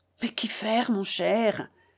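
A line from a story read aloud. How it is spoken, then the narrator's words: Quiet reply. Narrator (French): répondit tout bas mon oncle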